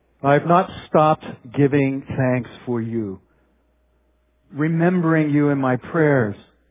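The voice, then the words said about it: Slow, deliberate reading. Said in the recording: “reading slowly ... read this slowly”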